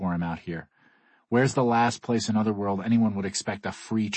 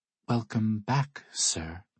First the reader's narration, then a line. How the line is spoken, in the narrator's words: she offers timidly